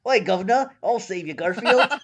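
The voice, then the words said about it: Clumsy attempt at British accent. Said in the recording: “I forgot how to do a British voice. Let me try again. ... No, wait, that's not fucking A. How was I doing it? I was doing it so well before too.”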